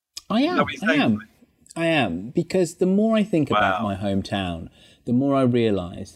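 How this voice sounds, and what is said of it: Birmingham English accent. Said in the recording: “referred to me as a Brummie. You take the mick out of my accent.”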